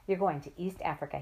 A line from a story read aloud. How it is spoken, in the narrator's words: he said